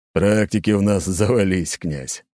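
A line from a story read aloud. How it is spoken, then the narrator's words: Wry chuckle. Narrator (Russian): хмыкнул Аршавин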